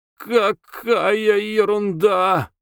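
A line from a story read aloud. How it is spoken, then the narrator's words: Distant shout. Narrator (Russian): крикнули из коридора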